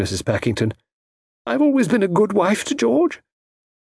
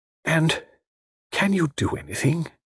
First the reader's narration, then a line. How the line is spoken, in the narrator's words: She asked it almost in a whisper